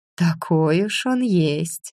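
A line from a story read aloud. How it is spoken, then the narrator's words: Understanding sigh. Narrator (Russian): понимающе вздохнула я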